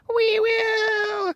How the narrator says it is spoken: cried all the mice in a shrill chorus

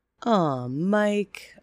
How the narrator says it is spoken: said, sighing deeply

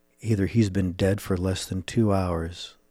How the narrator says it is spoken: Sykes said quietly to himself

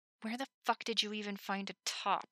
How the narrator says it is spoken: Levi hissed

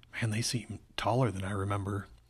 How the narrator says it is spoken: he added in a whisper

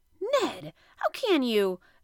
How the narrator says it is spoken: exclaimed Conseil

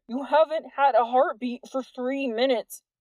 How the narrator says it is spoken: Jordan moaned

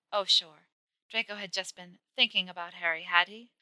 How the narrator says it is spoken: sighing loudly

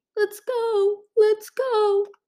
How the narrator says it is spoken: Splendor cried

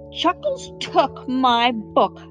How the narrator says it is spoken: howled Bright

